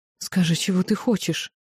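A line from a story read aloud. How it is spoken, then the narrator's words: Frightened whisper. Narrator (Russian): испуганно зашептала тьма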